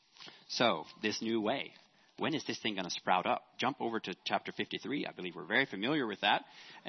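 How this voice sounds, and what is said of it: Talking very fast. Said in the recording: “sorry for talking so fast.”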